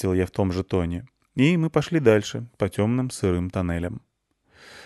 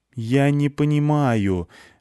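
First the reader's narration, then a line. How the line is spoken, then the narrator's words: Pleading. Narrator (Russian): взмолился я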